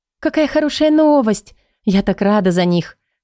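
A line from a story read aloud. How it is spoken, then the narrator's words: Exclaimed. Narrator (Russian): воскликнула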